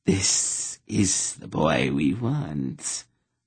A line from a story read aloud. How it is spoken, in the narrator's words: the hissing voice whispered